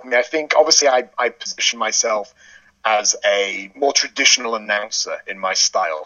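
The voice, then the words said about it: English accent with Northern twang. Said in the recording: “the English accent ... I've been pronouncing it with a slightly Northern English twang”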